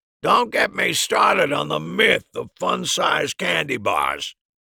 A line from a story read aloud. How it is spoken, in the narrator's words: Harry grumbled to no one in particular